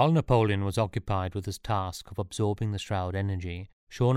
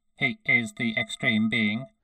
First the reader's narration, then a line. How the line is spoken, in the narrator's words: responded the creature in his metallic, synthesized voice